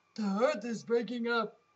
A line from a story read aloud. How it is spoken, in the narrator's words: Even the tiger started roaring it